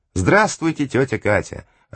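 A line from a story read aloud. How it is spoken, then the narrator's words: Joyful greeting. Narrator (Russian): радостно приветствовала ее Вика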